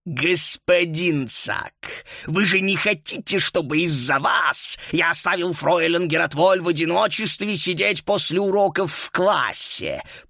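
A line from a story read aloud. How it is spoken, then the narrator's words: Through gritted teeth, suppressed fury. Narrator (Russian): Процедил он сквозь зубы, с трудом сдерживая ярость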